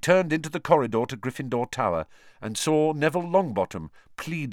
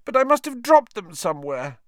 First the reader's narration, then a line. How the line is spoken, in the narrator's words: Neville was saying tearfully